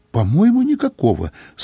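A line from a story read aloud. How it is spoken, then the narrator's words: Uncertain. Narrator (Russian): сказала она неуверенно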